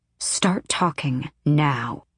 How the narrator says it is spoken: she hissed

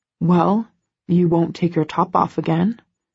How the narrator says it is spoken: he murmurs petulantly

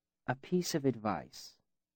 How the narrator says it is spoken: he said gently

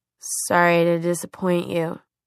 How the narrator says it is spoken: Clary's voice rasped like sandpaper

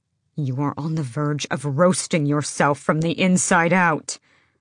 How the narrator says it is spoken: Rowan snarled

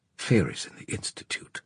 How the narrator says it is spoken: she muttered

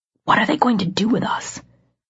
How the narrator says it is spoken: I whispered up to her

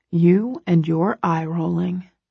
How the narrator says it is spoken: he whispers

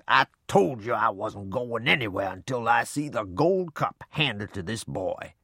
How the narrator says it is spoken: Snorting and growling, Grandpa said

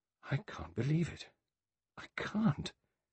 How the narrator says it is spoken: Vera murmured

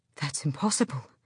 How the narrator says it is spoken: Gavriel breathed

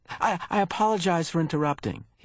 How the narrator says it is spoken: he added quickly

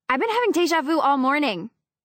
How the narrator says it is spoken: I blurt out before I can stop myself

